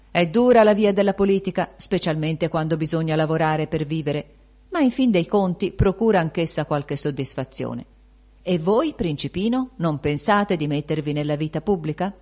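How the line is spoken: Blissful smiling exclamation. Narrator (Italian): il deputato, con un sorriso che voleva essere discreto ed era beato, esclamò

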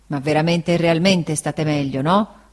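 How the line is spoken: Grumbled. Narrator (Italian): brontolò Barkis

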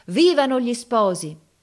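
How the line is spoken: Crowd shouting. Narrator (Italian): tutta la gente gridava

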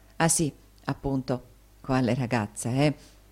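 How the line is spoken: Whisper. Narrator (Italian): bisbigliò Tommaso

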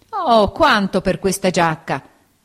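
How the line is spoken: Old man exclaiming. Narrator (Italian): esclamò il vecchio

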